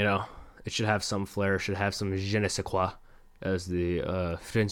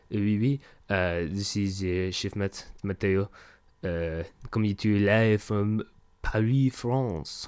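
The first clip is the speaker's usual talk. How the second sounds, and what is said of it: Put-on stereotypical French accent. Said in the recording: “screaming baguette in a French accent”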